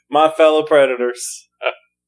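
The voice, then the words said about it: Mock presidential character voice. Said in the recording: “That's my impression of President Predator.”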